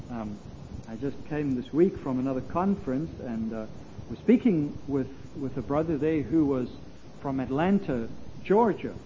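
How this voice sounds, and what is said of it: Slight South African accent. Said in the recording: “I came originally from South Africa, so that's why there's a little bit of an accent.”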